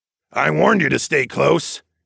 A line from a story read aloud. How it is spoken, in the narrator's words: Darwin grunted